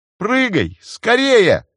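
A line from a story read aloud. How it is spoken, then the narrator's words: Shout. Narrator (Russian): крикнул Джейсон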